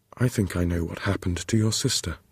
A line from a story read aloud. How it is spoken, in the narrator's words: he said calmly